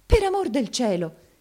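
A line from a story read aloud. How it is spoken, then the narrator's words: Dismayed exclamation. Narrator (Italian): esclamò Maddalena intervenendo tutta sgomenta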